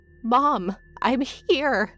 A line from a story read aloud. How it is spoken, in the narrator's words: I cried